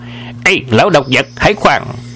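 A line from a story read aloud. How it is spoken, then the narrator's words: Shouting. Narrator (Vietnamese): Miệng quát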